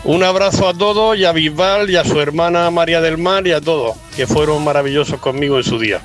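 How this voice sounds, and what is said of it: Regional Spanish accent. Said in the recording (Spanish): “se nota que es de la misma tierra que Bisbal, ¿verdad? Por el acento.”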